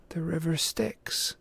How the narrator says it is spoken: Annabeth murmured

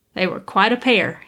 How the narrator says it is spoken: he chuckled to himself

